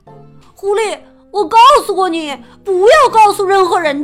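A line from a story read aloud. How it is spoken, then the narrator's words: Angry shout. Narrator (Chinese): 富兰克林气得大喊起来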